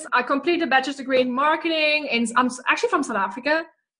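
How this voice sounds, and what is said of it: South African accent. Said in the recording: “the South African accent”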